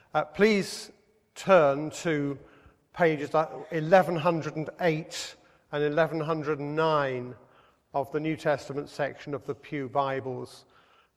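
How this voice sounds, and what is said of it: Hoarse, sick-sounding voice. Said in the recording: “apologize for my voice ... suffering from the after effect of an upper respiratory tract infection, which sounds so much worse than a cold”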